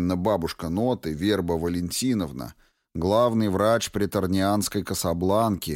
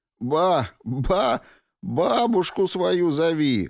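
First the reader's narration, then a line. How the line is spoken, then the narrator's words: Hoarse wheezing. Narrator (Russian): выхрипывает Дьяк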